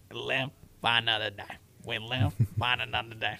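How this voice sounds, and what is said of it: Imitates a movie character's voice. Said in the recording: “That may not have been my greatest impression of him whatsoever.”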